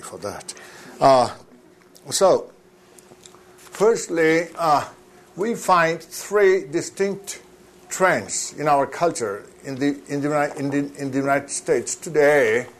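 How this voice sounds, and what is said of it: Strange accent. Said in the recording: “I have a strange accent, a strange Utah accent”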